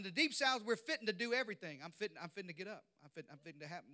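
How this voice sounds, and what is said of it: Southern US accent. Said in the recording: “I know you can't tell from this accent, but I grew up in the deep south”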